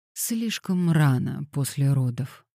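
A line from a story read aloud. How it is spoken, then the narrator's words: Gentle remark. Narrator (Russian): мягко заметил Девон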